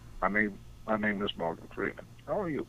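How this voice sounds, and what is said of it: Morgan Freeman impression. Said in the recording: “Impersonators.”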